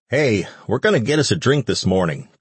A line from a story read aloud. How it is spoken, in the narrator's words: Carl yelled to him